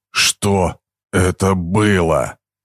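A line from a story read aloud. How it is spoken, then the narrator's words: Breathed out. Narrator (Russian): выдохнул Харви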